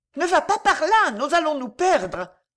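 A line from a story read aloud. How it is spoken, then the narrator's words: Shouted. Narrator (French): lui cria Bobo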